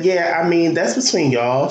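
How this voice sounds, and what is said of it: Impression of Issa. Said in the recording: “Great impersonation.”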